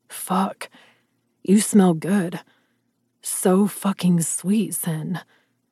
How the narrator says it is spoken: he growled

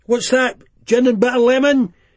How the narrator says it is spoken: He shouted back

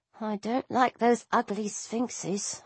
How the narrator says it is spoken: I mumbled

